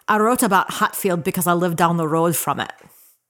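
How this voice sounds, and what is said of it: Scottish accent. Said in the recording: “does a mean Scottish accent.”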